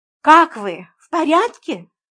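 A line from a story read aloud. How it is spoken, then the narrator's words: Cheerful question. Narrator (Russian): бодро спросила я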